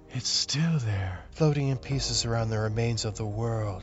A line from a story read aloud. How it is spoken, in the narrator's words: Flynn whispered